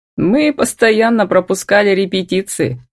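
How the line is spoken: Laughing loudly. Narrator (Russian): расхохотался Демьяновский

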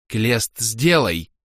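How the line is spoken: Tired growl. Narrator (Russian): устало рыкнула

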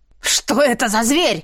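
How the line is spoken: Roaring. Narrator (Russian): взревел Рангрет

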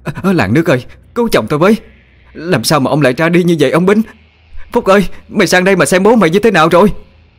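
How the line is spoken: Panicked wailing cry. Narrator (Vietnamese): Bà hốt hoảng kêu lên

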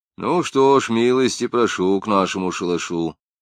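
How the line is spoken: Calm, kind old man. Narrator (Russian): спокойно и ласково сказал старик

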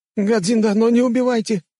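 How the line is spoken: Frightened squeak. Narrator (Russian): пискнул он

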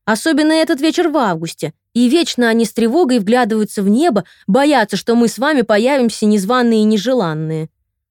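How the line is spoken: Exclaiming. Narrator (Russian): воскликнула кумушка Туча

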